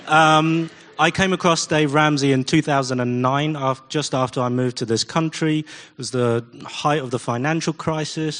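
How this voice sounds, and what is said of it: English accent. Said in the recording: “an Asian guy with an English accent”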